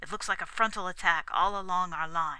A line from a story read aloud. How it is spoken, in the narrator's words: he said harshly